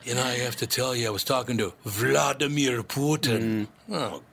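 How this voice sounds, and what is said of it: Imitates another person's voice. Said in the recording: “Let me say it like Steven Seagal. ... He's working on his next movie accent, I guess.”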